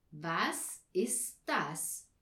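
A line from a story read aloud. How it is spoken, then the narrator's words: Very slow question. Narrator (German): fragte sehr langsam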